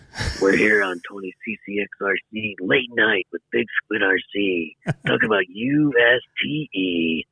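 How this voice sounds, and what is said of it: Deep radio announcer voice. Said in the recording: “This time I've got my deep radio voice.”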